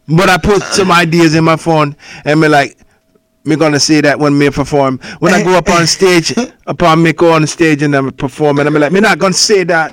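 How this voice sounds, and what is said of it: Put-on accent. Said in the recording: “I wish I could do the accent. ... What accent? ... The one you're doing.”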